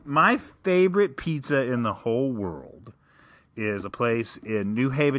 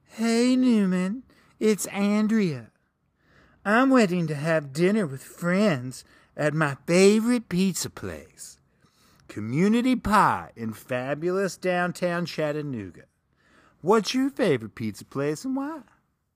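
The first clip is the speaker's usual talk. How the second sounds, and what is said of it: Imitates another person's voice. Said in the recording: “read this tweet on air in your best Andrea voice ... my Andrea impression ... I'm still doing the Andrea voice”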